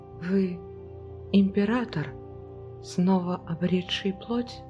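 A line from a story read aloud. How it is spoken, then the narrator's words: Very quiet question. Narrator (Russian): Спросила она очень тихим голосом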